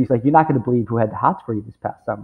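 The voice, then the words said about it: Whispered imitated New York accent. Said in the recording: “his big sort of New York accent... whispering as best he can”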